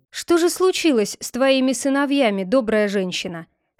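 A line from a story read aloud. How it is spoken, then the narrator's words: Plain. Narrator (Russian): спросил Робин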